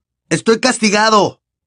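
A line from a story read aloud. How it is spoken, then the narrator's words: Shout. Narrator (Spanish): le gritó Harry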